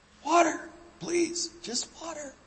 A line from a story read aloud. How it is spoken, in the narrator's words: gasped the man